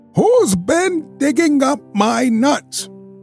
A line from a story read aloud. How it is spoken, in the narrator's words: said Silvertail Squirrel, and he shouted into the hole